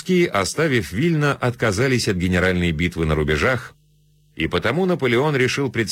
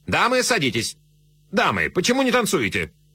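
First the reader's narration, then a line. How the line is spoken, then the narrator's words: Sharp command. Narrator (Russian): резко командуя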